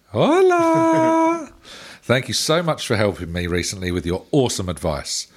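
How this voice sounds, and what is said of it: Put-on South American accent. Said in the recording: “our good friend from South America ... from Sao Paulo ... I'll try and do the accent justice”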